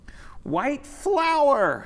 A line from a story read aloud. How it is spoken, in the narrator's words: the clowns shouted